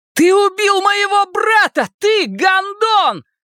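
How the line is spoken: Shouting. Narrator (Russian): прокричал Билл Денбро

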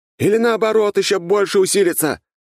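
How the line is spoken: Shout. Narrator (Russian): крикнул княжич

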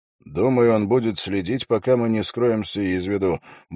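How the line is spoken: Muttered remark. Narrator (Russian): буркнул Холт

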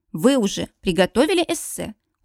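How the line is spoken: Cold question. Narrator (Russian): Холодно спрашиваю

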